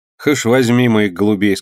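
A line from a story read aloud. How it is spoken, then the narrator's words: Plain. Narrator (Russian): сказал орелка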